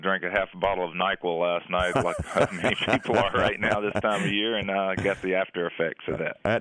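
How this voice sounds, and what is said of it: Deep, rough, unwell-sounding voice. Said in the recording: “I sound terrible ... I think you got a good, deep kind of radio DJ voice going this morning ... I got a little bass in there”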